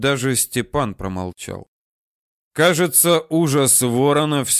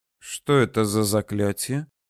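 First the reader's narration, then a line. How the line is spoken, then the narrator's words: Quiet worried question. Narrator (Russian): тихо спросил обеспокоенный Александр Михайлович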